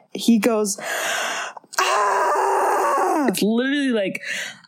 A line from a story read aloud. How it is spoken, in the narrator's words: he screams